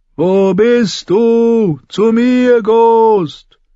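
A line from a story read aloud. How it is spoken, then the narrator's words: Repeated call. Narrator (German): rief noch einmal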